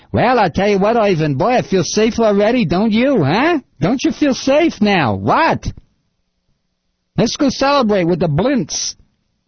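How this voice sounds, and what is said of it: Bad put-on Jewish accent. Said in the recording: “That is the worst Jewish imitation I've ever heard.”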